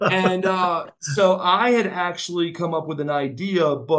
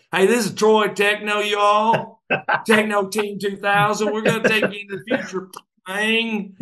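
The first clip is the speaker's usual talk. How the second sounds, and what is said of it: Mock country accent. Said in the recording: “me have a country accent. Because I'd make fun.”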